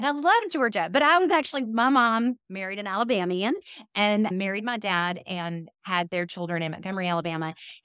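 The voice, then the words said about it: Southern Alabama accent. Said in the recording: “So you can hear it in my voice.”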